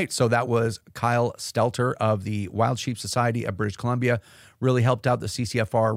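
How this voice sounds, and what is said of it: Strained, fading hoarse voice. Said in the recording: “I'm losing my voice ... forgive me for my voice”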